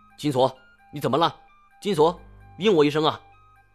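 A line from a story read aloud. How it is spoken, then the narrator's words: Panicked distant shout. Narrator (Chinese): 我一下子慌了神，隔着一群鬼往那边喊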